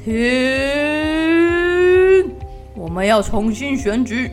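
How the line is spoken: Deep breath, roar. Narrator (Chinese): 狮子深深地吸了一口气，大吼一声

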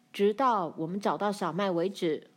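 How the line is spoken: Loud, called backward. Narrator (Chinese): 阿曼乐向后大声说

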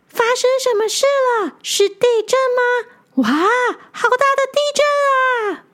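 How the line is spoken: Excited shouting. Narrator (Chinese): 吴国鱼兴奋的大喊着

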